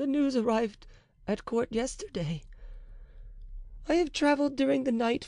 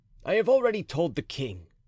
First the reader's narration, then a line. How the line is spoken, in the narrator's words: added he coldly